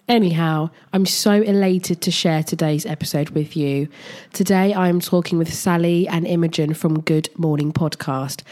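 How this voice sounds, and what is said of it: Congested, bunged-up voice. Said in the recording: “I sound vile and bunged up, because I am ... I have somehow caught a cold ... I've got a cold in May”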